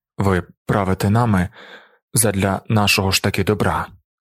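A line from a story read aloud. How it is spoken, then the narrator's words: Weak voice. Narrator (Ukrainian): сказав слабким голосом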